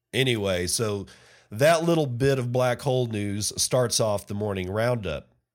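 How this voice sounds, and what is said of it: Hoarse, strained sore-throat voice. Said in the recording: “my voice is fried. It is really fried. I got a sore throat.”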